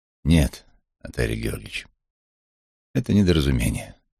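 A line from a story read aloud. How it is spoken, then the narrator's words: Calm. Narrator (Russian): спокойно сказал я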